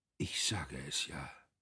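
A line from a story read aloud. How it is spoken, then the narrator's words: Very quiet, anguished. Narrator (German): äußerte er nur, ganz leise, aber man glaubte, einen grauenvollen Aufschrei zu hören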